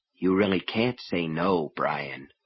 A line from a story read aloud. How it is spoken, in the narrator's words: he said softly